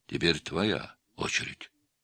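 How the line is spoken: Quiet. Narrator (Russian): негромко сказал он

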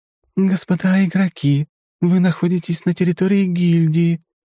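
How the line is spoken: Singsong voice. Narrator (Russian): певучим голосом сообщила

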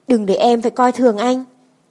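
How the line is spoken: Cold. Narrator (Vietnamese): Tôi lạnh lùng nói

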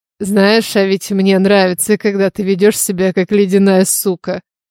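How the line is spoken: Purring. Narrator (Russian): промурлыкал

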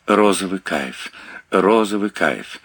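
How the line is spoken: Panting. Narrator (Russian): Часто дыша, она

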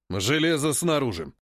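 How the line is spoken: Barked. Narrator (Russian): рявкнул Тит

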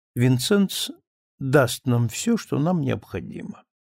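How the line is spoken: Calm. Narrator (Russian): сказала спокойно

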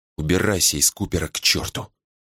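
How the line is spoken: Close whisper. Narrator (Russian): прошептала она, наклоняясь ближе

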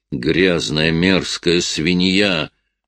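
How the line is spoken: Animal growl. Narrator (Russian): Сэм издал какое-то животное рычание

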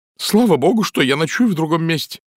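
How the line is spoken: Exclamation. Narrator (Russian): воскликнула миссис Николетис

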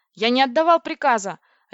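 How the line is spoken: Barked. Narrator (Russian): рявкнул Владлин

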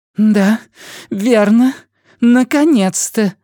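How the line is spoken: Strained insistent voice. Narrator (Russian): сказала Диана надрывным настойчивым голосом

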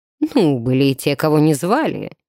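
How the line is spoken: Cheerful chuckle, priest. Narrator (Russian): весело хмыкнул священник

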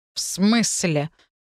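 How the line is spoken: Indignant voice. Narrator (Russian): возмущенным голосом отозвался Сигизмунд

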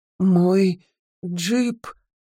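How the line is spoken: Stuttering. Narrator (Russian): заикаюсь

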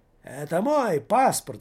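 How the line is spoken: Shouting. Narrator (Russian): закричит Таборский Томмазо Кампанелло

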